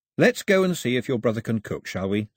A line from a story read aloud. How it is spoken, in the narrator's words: said Mao, keeping his voice level and friendly